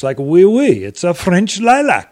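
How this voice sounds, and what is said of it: Bad put-on French accent. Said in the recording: “That was a terrible. To my French friends, I apologize terribly for that terrible accent”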